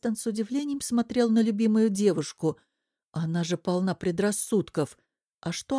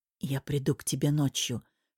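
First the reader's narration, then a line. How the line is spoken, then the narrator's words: Whisper. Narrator (Russian): шепнул он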